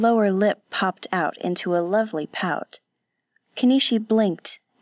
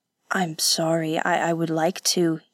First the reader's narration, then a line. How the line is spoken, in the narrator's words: he said